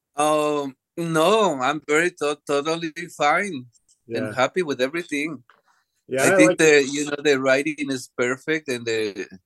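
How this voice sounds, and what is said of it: Non-native English accent. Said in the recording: “My English is not very good yet. ... because I have an accent, ... I planned not to audition only for Latin roles”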